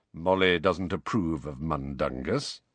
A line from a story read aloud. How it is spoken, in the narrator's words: said Sirius in an undertone